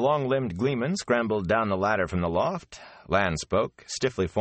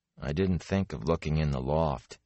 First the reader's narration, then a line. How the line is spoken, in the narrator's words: he muttered